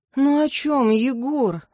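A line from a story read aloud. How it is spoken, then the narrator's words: Resigned sigh. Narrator (Russian): вздохнула обреченно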